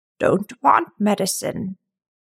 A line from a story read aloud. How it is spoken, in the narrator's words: it croaked